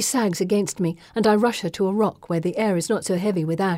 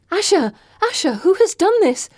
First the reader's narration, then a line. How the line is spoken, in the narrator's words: I sputter